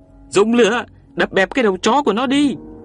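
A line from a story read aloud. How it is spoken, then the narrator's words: Desperate cry. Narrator (Vietnamese): Tôi và Tuyền Béo đành kêu lên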